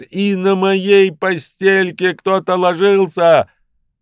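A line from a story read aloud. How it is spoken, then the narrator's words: Shouting in unison. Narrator (Russian): закричали в один голос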